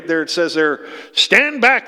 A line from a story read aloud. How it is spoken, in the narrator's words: they shouted